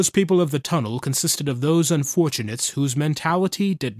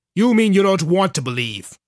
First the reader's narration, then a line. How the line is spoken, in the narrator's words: snapped